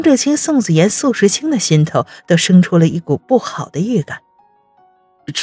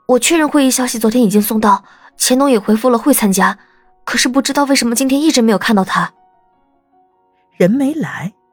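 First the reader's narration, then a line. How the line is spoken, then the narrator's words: Hurried. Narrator (Chinese): 秘书急忙道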